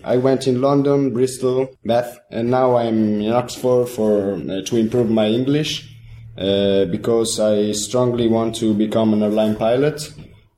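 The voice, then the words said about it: Italian accent in English. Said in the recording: “your Italian accent, because it's so difficult to understand you”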